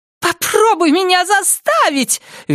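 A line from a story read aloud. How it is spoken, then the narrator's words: Shrill shout. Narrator (Russian): визгливо крикнула она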